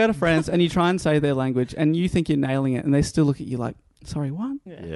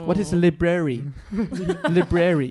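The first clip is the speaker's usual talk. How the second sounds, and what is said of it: Mock French accent in English. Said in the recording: “a French person speaking English ... with a French accent”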